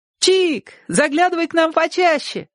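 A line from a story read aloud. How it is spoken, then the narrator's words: Shouted. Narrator (Russian): крикнула Ляля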